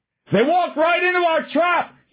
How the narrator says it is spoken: he shouted as loud as he could

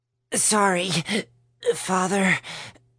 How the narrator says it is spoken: Vince squeezed out as he gasped for air

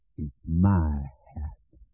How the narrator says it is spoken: he said at last in a rusty, bemused voice

